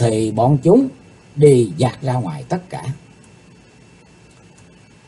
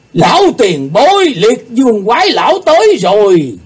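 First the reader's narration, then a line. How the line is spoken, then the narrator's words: Shouting in unison. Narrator (Vietnamese): Họ cùng lượt la lên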